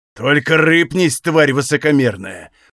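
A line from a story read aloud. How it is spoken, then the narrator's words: Growl. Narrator (Russian): прорычал один из мужчин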